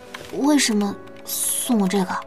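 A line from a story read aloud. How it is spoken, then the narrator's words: Quiet question. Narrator (Chinese): 朱韵小声问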